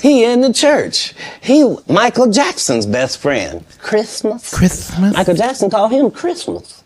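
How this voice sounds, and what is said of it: Imitates another person's voice. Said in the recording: “did an impression of Katt Williams doing an impression of Michael Jackson”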